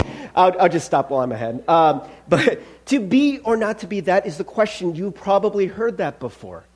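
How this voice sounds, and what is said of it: Usual voice. Nothing is said of it.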